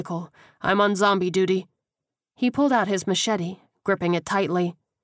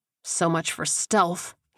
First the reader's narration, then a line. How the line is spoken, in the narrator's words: he muttered